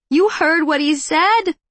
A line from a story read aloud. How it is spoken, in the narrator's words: Mother Teresa cried shrilly